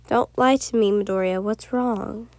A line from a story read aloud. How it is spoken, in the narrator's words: you asked